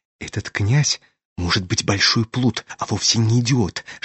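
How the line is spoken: Whisper. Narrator (Russian): шепнула она Аглая

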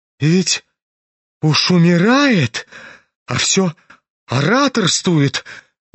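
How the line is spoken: Horrified exclamation. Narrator (Russian): воскликнула Лизавета Прокофьевна

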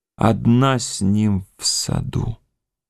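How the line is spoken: Whisper. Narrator (Russian): шепнул Александр

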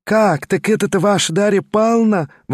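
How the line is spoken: Exclamation. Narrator (Russian): воскликнула Марья Тимофеевна

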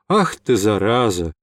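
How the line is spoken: Irritated outburst. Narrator (Russian): не удержался мой друг, раздраженно

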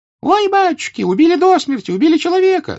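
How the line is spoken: Woman's shriek. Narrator (Russian): завизжала баба

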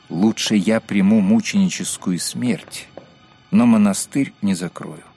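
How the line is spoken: Calm explanation. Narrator (Russian): он спокойно пояснил

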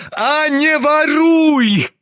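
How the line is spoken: Shout choking with rage. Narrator (Russian): крикнул Ганя, чуть не захлебываясь от злости

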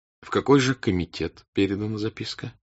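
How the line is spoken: Plain question. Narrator (Russian): спросил князь Андрей

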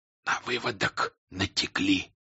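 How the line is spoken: Whispering. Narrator (Russian): прошептал он

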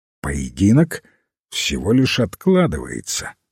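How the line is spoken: Calm reply. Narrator (Russian): спокойно ответил лорд Пули

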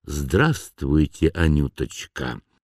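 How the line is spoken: Throat-clearing, quiet voice. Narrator (Russian): Мышлоевский откашлялся, тихо сказал

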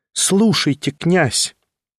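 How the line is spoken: Firm insistent repetition. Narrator (Russian): повторила она в третий раз твердым голосом

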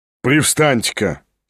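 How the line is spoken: Angry. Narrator (Russian): сердито дернул он

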